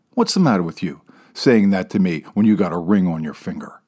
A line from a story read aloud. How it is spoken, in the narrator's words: she snaps back